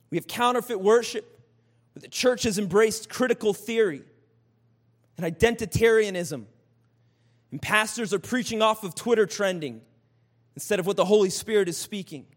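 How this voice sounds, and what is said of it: Angry, impassioned preaching tone. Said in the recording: “you sound angry. ... I am angry.”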